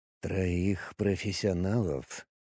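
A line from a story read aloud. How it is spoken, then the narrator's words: Quiet, disbelieving. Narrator (Russian): сказал он тихо, и в его голосе было что-то похожее на недоверие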